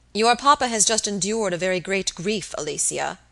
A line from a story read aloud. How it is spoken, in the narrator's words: the young man said gravely